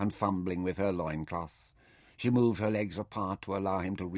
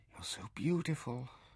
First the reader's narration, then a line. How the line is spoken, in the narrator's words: she breathed